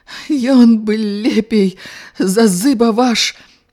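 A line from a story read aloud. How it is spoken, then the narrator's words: Shout breaking into sobs. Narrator (Belarusian): не скончыла крыку і заплакала, наўзрыт скаланаючыся уся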